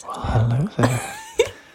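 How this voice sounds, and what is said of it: Seductive whisper. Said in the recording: “Why are we whispering? ... I thought I was trying to sound seductive at first, but then it sounded a bit weird.”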